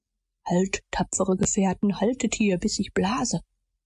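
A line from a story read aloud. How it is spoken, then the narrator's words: Whispered. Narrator (German): flüsterte er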